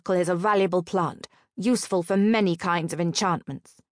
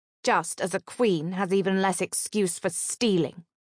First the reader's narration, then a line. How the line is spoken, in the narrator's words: he said coldly